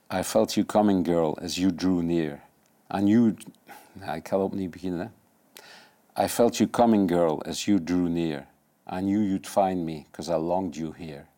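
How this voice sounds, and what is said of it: English with Dutch accent. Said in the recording (Dutch): “Met Hollands accent”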